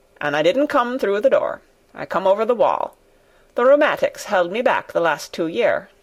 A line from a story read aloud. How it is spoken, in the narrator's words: said old Ben dryly